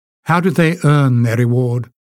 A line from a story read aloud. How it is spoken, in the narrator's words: asked